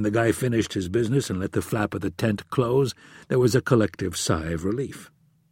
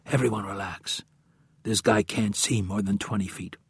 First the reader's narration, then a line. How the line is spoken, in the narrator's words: With no fear of being heard due to the falling rain, whispered into his lip mic